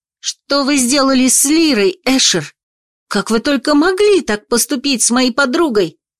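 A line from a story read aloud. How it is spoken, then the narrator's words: Shout. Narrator (Russian): закричала она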